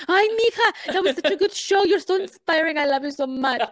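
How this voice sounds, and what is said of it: Good imitation of her mom's voice. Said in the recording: “that was a really good accent of her”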